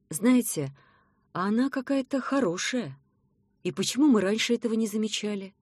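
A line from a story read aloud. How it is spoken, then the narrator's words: Uncertain. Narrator (Russian): неуверенно сказала мама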